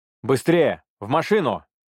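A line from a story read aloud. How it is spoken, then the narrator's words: Shouting urgently. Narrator (Russian): прокричал Санхо, стремительно отреагировав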